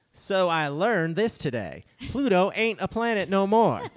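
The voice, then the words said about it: Fake Southern accent. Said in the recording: “fake southern accent ... Sorry, I did my best.”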